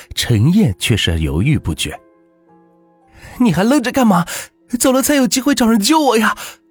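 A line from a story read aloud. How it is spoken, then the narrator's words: Shouting. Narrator (Chinese): 陈雪喊道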